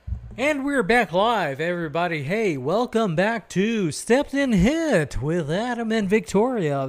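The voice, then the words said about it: Announcer voice. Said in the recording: “announcer voice? Because this is my announcer voice.”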